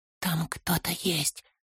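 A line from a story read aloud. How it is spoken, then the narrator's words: Whisper. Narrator (Russian): шепнул Фолка Торину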